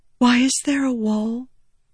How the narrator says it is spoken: Shallan whispered

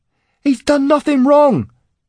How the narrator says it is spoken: Cade shouted

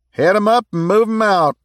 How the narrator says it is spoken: Dick yelled

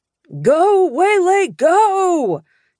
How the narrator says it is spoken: Dad shouted

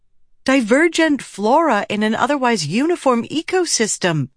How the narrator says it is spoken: Shallan exclaimed

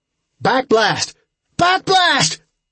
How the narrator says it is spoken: Trip shouting

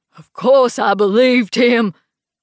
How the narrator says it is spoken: he roars over my head

